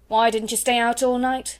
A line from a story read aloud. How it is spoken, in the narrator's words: she snapped